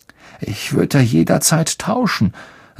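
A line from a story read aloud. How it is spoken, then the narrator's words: Hollow voice. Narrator (German): sagte Harry mit hohler Stimme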